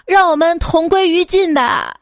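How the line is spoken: Loud shout. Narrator (Chinese): 大声喊道

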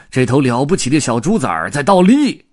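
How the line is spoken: Big man shouting. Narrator (Chinese): 马戏团的大个子……喊道

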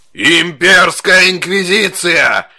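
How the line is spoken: Roaring. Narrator (Russian): проревел

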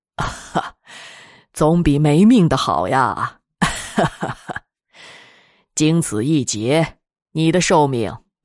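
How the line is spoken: Old man, laughing. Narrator (Chinese): 老者笑道

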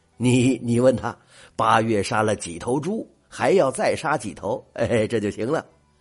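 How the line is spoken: Giggling, playful. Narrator (Chinese): 七狗嬉笑着说

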